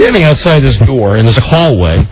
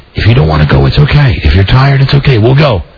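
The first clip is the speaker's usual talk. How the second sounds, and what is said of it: Whispering. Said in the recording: “I'm saying this into the door and I'm whispering,”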